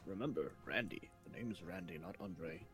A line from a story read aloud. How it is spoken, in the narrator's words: Andre says, just kind of like whispers over